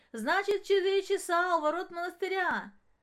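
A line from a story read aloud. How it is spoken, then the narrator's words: Shouted after someone. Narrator (Russian): крикнул ей вдогонку Денис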